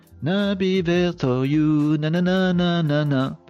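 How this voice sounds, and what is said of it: French-accented English singing. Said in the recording (French): “Désolé pour mon accent anglais.”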